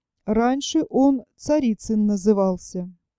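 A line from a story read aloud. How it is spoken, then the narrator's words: Almost calm. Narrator (Russian): сказал почти спокойно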